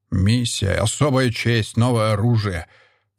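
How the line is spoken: Growled. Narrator (Russian): прорычал

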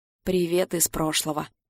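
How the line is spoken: Muttering. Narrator (Russian): Бормочет она

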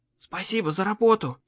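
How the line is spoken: Whisper in the ear. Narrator (Russian): шепнула Холли ему в ухо

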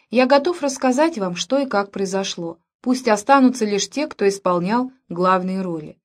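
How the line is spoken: Calm. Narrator (Russian): спокойно сказал

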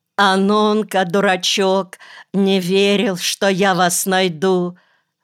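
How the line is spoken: Crying, smiling through tears. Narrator (Russian): Плакала она и сквозь слезы улыбалась

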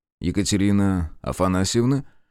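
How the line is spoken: Icy question. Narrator (Russian): спросил он ледяным тоном

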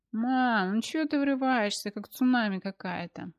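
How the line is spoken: Sleepy mumble. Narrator (Russian): Сонно пробормотала она

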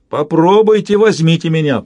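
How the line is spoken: Defiant roar. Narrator (Russian): проревел он, бросая им вызов

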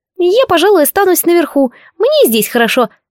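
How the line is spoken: Squeaky. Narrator (Russian): пискнул предатель Сив

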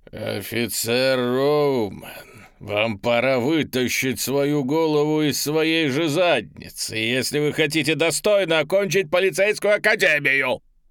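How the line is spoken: Shout in an altered voice. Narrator (Russian): крикнула она не своим голосом

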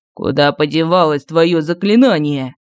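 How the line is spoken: Growling. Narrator (Russian): прорычал Кощей

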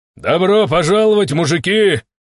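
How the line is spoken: Shouted with a big smile. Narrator (Russian): крикнул я и улыбнулся, что есть мочи

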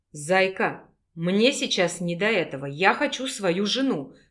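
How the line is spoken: Growled. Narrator (Russian): прорычал Альфа

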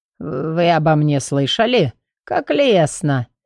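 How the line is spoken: Hoarse laugh. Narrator (Russian): Петри хрипло рассмеялся

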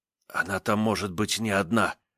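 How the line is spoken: Furious whisper. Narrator (Russian): прошептал мне яростно дружинник

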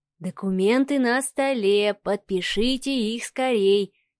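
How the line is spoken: Soft singing. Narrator (Russian): тихонько начал напевать Волкович

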